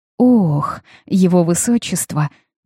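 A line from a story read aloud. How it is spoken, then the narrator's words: Drawl with a sigh. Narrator (Russian): протянула я, вздохнув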